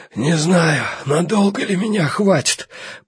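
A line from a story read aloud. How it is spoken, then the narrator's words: Hoarse wheeze. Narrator (Russian): просипел он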